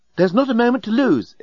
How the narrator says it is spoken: exclaimed the remarkably attractive and remarkably available female alien

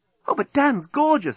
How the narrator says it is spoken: exclaimed Nettie

